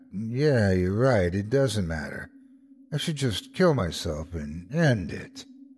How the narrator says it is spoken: I can remember mumbling back

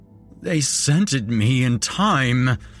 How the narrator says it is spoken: he moaned

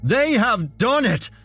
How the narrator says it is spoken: Senator Long screamed into the microphone

